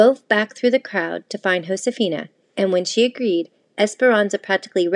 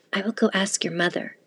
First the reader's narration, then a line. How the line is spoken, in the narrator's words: Esperanza whispered to her